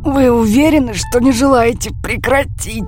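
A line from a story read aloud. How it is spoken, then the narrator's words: Hoarse, strained. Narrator (Russian): спросил он хриплым от напряжения голосом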